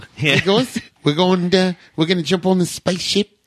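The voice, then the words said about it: Attempted New Zealand accent, Korg-like. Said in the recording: “the New Zealand accent ... That sounds like Australian ... Think Korg”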